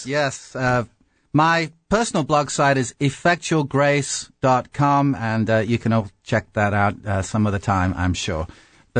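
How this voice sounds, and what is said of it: Authentic British accent. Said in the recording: “how much more authentic your British accent is than anything James would ever try or attempt or even achieve”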